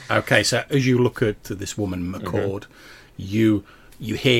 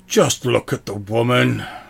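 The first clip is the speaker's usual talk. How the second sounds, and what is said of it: Slightly exasperated character voice. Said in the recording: “The sword's voice in a slightly exasperated voice”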